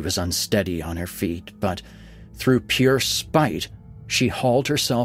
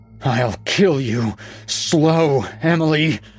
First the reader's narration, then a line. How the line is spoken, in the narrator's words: she panted